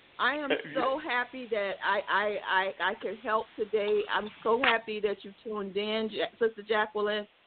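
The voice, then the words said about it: New York accent. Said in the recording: “We hear that New York. We hear that New York accent, so we know you're from the East Coast. ... Love that accent.”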